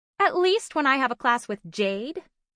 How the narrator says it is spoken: added in a sassy tone

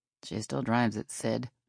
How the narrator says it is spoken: Dale mumbled

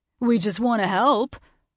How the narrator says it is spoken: Fiji laughed

